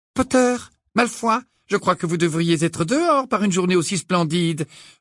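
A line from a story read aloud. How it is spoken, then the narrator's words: Brisk tone. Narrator (French): reprit le professeur McGonagall d'un ton vif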